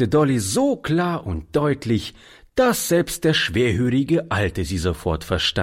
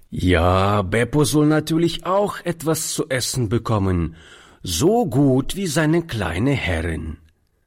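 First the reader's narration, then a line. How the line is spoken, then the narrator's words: Plain. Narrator (German): antwortete er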